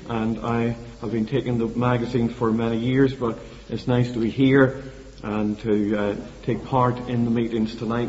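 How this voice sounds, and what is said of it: Speaks with a noticeable regional accent. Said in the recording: “I hope you can understand my accent. You've had Mr. Foster for a while, and we're not too dissimilar in accents”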